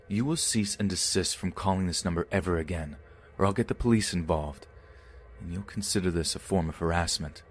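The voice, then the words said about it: Stern, commanding drill-style voice. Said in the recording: “I didn't use my customer service voice. It was gone. I immediately went for my sea cadet voice.”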